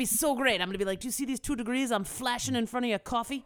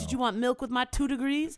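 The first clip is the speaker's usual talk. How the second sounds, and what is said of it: Odd put-on English accent, clearly American. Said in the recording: “the weirdest accent I've ever done ... That's your accent where you're like, I want everyone in England to know I'm American.”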